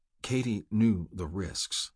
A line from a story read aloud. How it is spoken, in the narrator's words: Havelock said quietly